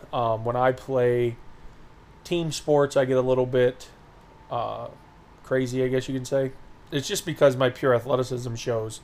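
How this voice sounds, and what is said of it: Cracky, strained voice. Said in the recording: “my voice sounds a little bit cracky”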